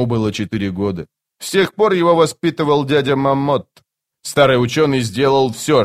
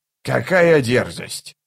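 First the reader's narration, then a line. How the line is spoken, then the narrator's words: Grumble. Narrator (Russian): проворчал он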